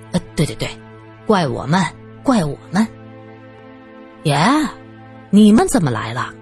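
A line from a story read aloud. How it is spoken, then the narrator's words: Wry smile. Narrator (Chinese): 他苦笑着 说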